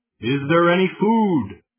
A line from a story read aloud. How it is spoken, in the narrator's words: He shouts again